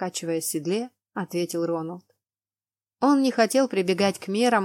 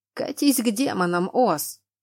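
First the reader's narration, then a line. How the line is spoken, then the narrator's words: Growl. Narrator (Russian): рыкнул на него капитан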